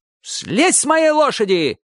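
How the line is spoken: Old man shouting. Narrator (Russian): крикнул дедушка по-абхазски

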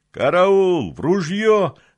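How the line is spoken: Yelled alarm. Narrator (Russian): заорал патрульный монолитовец

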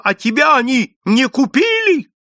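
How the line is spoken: Shouted. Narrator (Russian): Вадим закричал

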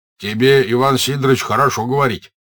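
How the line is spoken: Merchant's angry speech. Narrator (Russian): сердито заговорил 1-й купец

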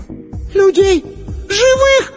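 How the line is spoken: Shriek. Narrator (Russian): Сонька взвизгнула

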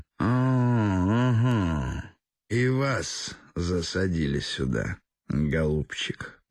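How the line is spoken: Hoarse sleepy voice. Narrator (Russian): проговорил сиплым спросонок голосом

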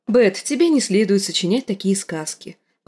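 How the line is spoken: Gentle correction. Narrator (Russian): поправила Санса

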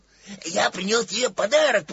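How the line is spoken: Joyful. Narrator (Russian): продолжал Пух радостно

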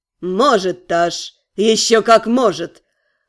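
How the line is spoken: Dark mage smirking. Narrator (Russian): хмыкнул темный маг

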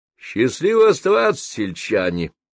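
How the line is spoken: Cheerful shout. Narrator (Russian): бодро крикнул Леонтий

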